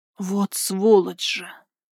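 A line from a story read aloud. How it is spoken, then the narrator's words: Hiss. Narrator (Russian): прошипела я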